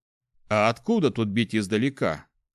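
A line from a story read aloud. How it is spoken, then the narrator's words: Snorting grunt. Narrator (Russian): хмыкнул наемник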